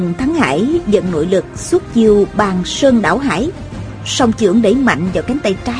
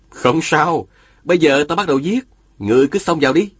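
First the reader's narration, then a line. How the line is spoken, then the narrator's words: Smiling. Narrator (Vietnamese): Diên Thừa Chí mỉm cười nói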